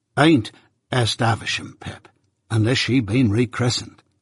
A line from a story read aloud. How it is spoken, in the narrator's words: said Joe gravely